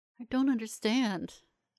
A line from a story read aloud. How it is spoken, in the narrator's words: I whimpered